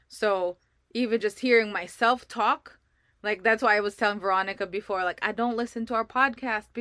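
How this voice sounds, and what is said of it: Non-native English accent. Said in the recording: “my English is, I have an accent, because I didn't grow up here”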